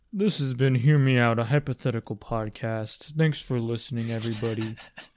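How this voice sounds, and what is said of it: Imitates another person's voice. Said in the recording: “doing my Sam impression ... It's not high-pitched and annoying enough.”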